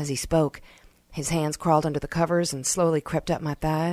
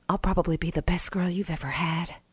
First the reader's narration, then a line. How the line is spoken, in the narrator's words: I whispered